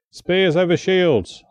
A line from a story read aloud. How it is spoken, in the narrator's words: I bellowed